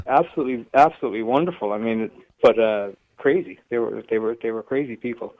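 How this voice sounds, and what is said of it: American accent. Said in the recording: “I can detect an American accent off you”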